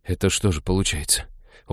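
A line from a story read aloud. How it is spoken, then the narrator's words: Dejected mutter. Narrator (Russian): упавшим голосом пробормотал Хел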